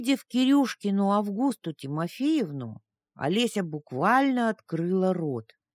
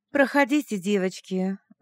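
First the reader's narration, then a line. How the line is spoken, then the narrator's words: Sweet ringing voice. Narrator (Russian): зазвенела она сладким голоском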